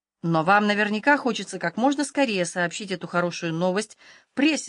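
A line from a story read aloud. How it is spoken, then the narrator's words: Plain. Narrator (Russian): сказала Холли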